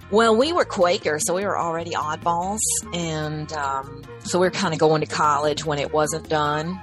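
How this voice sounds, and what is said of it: Rural Appalachian accent. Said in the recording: “you don't hear this hick accent?”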